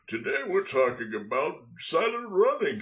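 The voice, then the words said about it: Santa Claus character voice. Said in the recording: “in a Santa voice”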